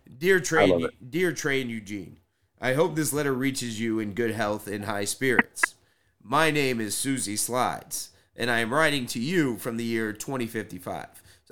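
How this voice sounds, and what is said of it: Heavy smoker character voice. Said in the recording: “I'm gonna do her voice ... Susie Slides is a heavy smoker.”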